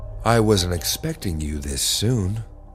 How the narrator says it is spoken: she said in a silky smooth voice

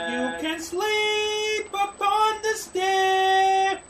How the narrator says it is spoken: cried the fair young maiden

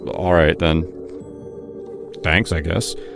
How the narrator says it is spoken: he muttered, unable to openly reject the praise

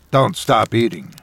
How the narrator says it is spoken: Madness had said

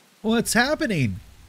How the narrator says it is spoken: he asked, his voice weak and uncertain

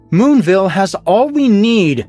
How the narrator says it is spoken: she shouted

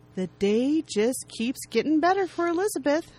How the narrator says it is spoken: Zara says warmly

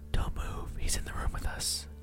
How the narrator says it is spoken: my wife whispered

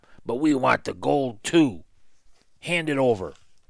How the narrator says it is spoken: Fletch said with a rasping laugh

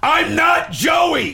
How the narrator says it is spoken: He had to scream

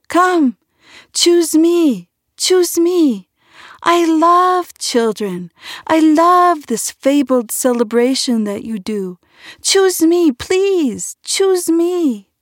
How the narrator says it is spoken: the little fir tree was shy, he could not help himself and cried out more boldly each year

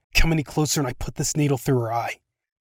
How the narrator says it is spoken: Macy hissed

